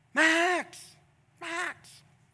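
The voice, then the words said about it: Yelling a name. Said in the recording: “I'm yelling,”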